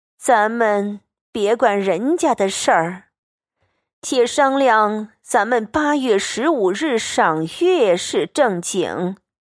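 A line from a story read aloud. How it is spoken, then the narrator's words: Sighing. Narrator (Chinese): 贾母 叹道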